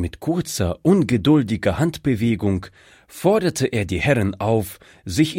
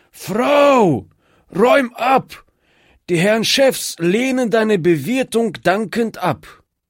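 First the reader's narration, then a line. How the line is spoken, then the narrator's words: Hoarse call. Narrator (German): rief mit heiserer Stimme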